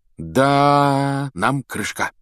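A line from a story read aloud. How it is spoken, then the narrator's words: Dejected voice. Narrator (Russian): упавшим голосом сказал он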